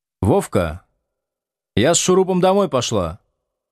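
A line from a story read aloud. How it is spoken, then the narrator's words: Loud announcement. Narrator (Russian): громко объявила Ветка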